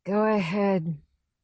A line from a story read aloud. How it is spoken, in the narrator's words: she says thickly